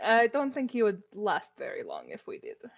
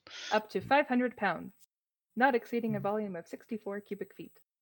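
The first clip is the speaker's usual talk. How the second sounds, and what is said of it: Odd, Siri-like voice. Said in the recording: “Was that Siri? ... Are you doing an accent? I don't recognize your voice just changed. It's quite odd.”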